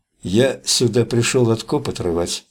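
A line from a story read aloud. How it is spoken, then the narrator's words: Quiet. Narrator (Russian): тихо проговорил он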